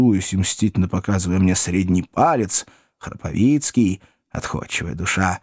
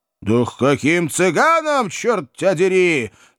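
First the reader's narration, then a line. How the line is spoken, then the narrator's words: Two voices roaring. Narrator (Russian): На два голоса взревели мы с майором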